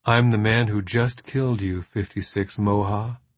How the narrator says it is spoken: he replied evenly

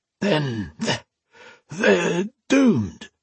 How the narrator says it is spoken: he rasped

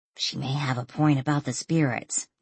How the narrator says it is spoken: Danielle whispered

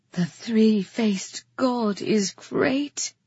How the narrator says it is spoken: she breathed

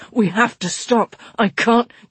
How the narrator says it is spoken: he gasped

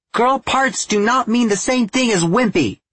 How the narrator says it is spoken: she yelled

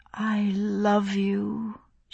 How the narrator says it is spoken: she said, her voice husky

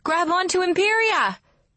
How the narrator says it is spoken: Aurora shouts

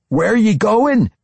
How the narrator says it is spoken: Amber cried out

